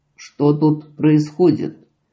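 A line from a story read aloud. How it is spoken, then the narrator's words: Dry question. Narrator (Russian): сухо спросил Гворий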